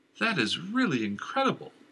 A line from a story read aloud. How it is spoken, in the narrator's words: Christian said, his voice full of wonder